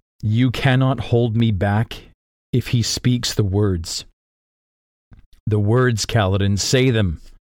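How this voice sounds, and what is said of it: Emotional, choked-up reading voice. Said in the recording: “I'm getting a little bit emotional here.”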